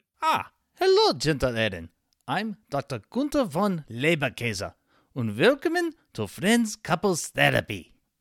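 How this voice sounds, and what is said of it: Bad fake German accent. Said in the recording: “doing a terrible German accent”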